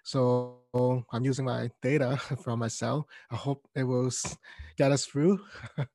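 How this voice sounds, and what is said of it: Voice sounding off, unwell. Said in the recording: “excuse my voice, it's doing funny things these couple of days.”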